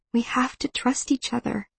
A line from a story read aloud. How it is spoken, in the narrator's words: I whisper